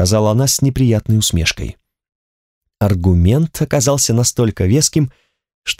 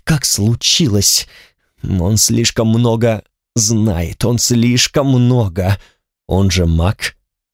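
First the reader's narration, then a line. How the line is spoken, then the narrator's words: Through gritted teeth. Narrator (Russian): сказал я сквозь зубы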